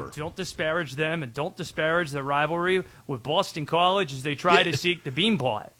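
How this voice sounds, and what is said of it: Put-on Boston accent. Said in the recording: “Is that you trying to do a Boston accent?”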